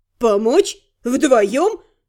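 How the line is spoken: Rough laugh, woman. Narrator (Russian): комендант Вайда грубо хохотнула

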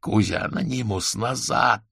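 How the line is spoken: Hoarse shout. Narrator (Russian): хрипло прокричал он

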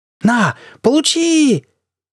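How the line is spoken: Desperate yell. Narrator (Russian): отчаянно завопил журналист

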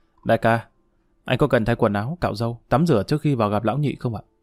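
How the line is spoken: Soft question. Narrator (Vietnamese): Tài xế lái xe cho Đại khẽ hỏi

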